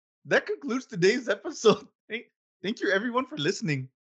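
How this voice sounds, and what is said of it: Poor attempt at Irish accent. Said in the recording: “in our best Irish accents ... I suck with my Irish ... that was so bad”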